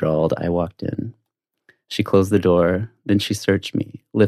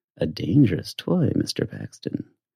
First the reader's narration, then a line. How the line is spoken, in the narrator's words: purred